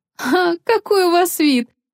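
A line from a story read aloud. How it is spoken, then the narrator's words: Laughing heartily. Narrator (Russian): расхохоталась Лео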